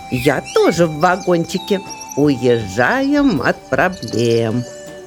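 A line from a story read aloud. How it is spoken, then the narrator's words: Laughing chipmunk. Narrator (Russian): рассмеялась бурундучиха Ируна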